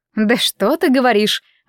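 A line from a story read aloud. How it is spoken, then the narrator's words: Indignant. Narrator (Russian): возмущенно отозвалась мисс Дэвис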